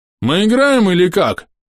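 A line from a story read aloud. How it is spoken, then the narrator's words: Shouted. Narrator (Russian): крикнул Гоблер-сокол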